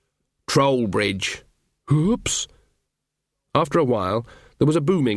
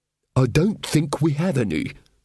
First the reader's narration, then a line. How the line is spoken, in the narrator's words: babbled happily